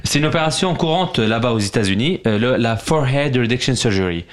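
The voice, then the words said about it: Put-on English accent. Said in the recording (French): “J'ai un bon accent anglais ou pas ? ... Amazing. Ça va, ça passe.”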